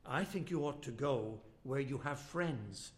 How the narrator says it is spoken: said his daughter-in-law

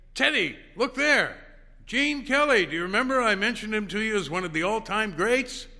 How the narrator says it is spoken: called out to Teddy

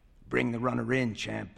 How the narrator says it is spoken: rasps

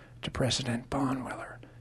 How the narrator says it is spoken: he said softly

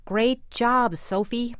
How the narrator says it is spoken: shouted to her

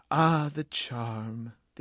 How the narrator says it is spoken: the agent sighed

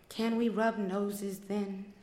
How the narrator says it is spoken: After taking a deep breath, she said sadly

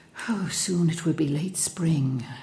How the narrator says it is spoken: she said quietly

